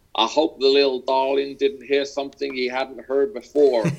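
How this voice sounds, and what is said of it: Texas accent impression of Jerry Jones. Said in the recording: “Best Texas accent. ... That's not bad. ... Jerry Jones”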